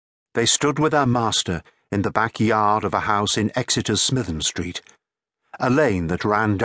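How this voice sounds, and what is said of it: Usual voice. Nothing is said of it.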